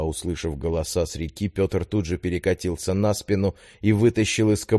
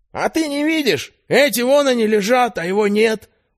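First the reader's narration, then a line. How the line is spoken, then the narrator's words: Shrill voice. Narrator (Russian): вновь послышался визгливый голос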